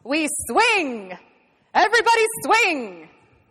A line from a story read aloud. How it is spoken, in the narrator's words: he shouts